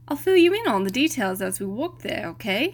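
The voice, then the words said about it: Bad attempt at British accent. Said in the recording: “it's hard to do a British accent, even a bad one”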